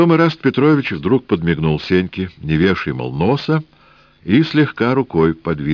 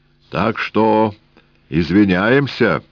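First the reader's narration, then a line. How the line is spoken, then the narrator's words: Booming deep bass. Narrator (Russian): прогудел густой бас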